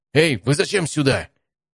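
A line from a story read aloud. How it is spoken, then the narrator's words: Annoyed shout. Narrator (Russian): Недовольно крикнул Алексей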